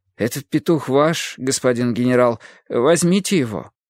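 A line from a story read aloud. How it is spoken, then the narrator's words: Timid reply. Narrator (Russian): робко ответил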